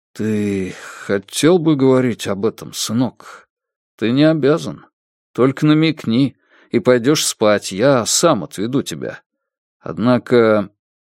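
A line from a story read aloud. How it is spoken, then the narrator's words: Sigh, quiet. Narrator (Russian): он вздохнул, тихо сказал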